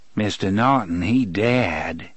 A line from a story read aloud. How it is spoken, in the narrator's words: the man in black intoned sardonically